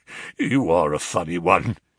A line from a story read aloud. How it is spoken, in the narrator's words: chuckled the inspector